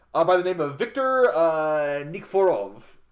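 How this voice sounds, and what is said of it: Put-on Russian accent. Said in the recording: “Sorry for that Russian accent. I really shouldn't have done that.”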